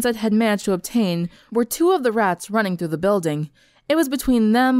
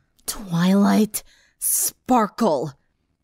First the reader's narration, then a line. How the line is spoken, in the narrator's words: Sunset growled